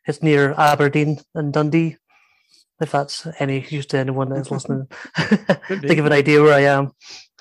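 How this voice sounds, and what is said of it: Northeast Scottish accent. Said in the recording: “Stuart has a different accent from me ... I'm from the northeast of Scotland”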